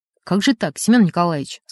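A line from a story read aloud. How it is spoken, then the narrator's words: Plain. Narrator (Russian): сказал он Таратару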